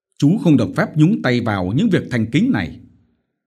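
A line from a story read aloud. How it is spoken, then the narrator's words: Irritable snap. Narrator (Vietnamese): Ông Phổ gắt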